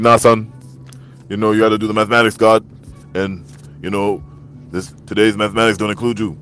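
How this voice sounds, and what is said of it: Impression of someone imitating RZA. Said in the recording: “that was me impersonating dude that be doing the RZA”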